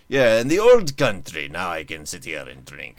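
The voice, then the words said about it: Bad put-on Eastern European accent. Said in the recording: “That's a terrible accent. That's fine, but yours is worse... I have no idea what accent I was doing. I was just doing some weird Eastern Bloc thing”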